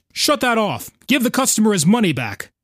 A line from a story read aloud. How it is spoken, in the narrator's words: called out